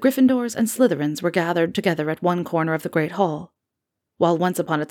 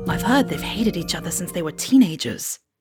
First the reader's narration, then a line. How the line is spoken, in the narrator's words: James Potter whispered